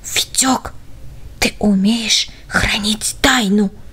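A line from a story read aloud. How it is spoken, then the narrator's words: Whisper right in ear. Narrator (Russian): прошептал он ему в самое ухо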